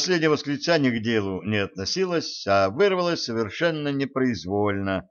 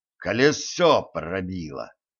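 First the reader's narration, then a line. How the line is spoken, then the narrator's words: Hissed. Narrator (Russian): прошипел водитель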